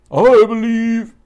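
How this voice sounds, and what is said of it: Imitates a singer's voice. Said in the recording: “my Josh Groban impression.”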